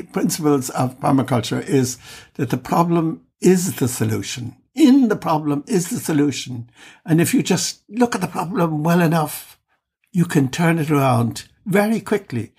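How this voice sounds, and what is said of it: Irish-German accent. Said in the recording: “my funny Irish-German accent”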